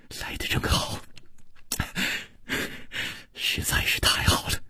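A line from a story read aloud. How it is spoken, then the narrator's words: Gentle, soft. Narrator (Chinese): 楚留香柔声说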